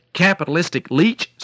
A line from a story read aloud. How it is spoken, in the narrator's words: screamed the duck